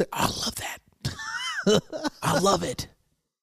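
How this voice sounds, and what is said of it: Imitating a white woman's voice. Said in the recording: “You did a perfect white impression.”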